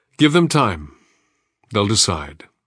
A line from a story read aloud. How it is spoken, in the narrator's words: Agat said gravely to the boy